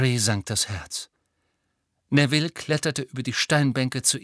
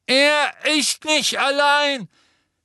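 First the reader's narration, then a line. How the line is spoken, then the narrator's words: Voice calling from above. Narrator (German): rief eine Stimme von oben her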